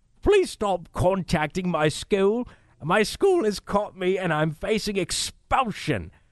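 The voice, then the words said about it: Whiny put-on Australian accent. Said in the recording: “make it whiny. Make it Charlie Baker style in an Australian accent.”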